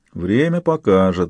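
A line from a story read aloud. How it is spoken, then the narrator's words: Thoughtful mutter. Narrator (Russian): задумчиво пробурчал Салейко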